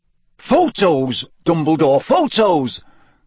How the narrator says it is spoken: cried Bagman excitedly

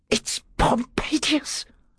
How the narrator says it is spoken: whispered

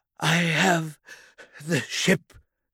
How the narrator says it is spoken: gasped

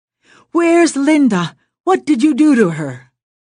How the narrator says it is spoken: shouted the brave words

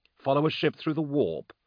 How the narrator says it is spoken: Thonius scoffed

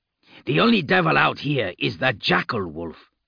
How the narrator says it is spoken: Ake snarled

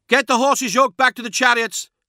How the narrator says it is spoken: shouted, authoritative, not frightened

